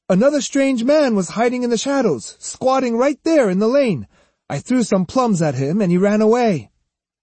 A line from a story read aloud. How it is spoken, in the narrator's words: Iori cried